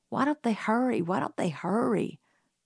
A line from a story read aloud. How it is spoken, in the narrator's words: muttered Jim